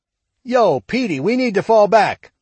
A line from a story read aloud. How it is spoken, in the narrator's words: shouted Shug over the racket